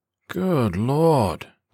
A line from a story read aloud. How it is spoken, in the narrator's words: the private groaned